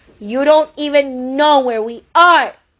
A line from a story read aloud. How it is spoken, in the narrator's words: she cried out at her father